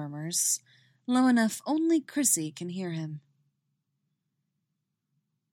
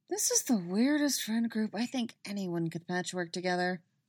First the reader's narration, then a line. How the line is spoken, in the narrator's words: Robin mutters